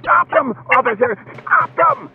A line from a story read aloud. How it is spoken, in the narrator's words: The manager was shrieking